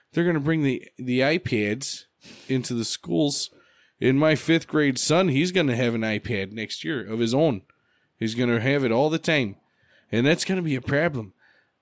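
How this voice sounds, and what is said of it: Put-on Wisconsin accent. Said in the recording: “I'm going to do this in a Wisconsin accent.”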